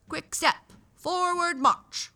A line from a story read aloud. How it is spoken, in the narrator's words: shouted a gruff voice